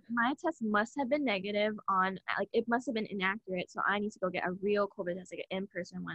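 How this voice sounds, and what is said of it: Sick, slightly congested voice. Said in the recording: “I started to develop, like, a cold, and my throat was itchy, and I started, like, a cough, and you can kind of hear it in my voice ... why does she sound sick?”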